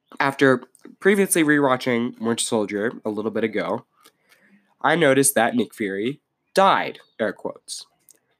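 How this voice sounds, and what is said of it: Congested, sick-sounding voice. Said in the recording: “I'm sorry, I have a cold.”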